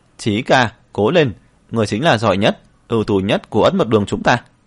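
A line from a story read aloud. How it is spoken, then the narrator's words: Crowd cheering. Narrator (Vietnamese): dưới đài truyền đến tiếng hò hét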